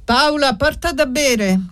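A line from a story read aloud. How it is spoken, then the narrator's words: Shouted. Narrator (Italian): gridò Prete Virdis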